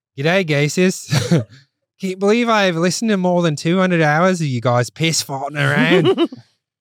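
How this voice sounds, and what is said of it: Put-on Australian accent. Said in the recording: “You got to read it in the accent ... This is Australian.”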